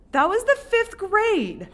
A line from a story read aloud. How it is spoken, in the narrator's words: Hector yelled